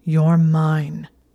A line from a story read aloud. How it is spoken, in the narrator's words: he growled the words against her throat